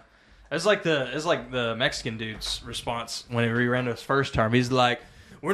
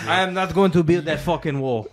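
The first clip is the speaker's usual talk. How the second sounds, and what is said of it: Bad put-on Mexican accent. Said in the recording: “That's a bad Mexican accent ... that's European right there ... It is a little bit European.”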